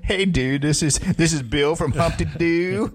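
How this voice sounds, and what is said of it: American stoner-style voice. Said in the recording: “Why does he sound like some reefer smoker from America? He's in Australia.”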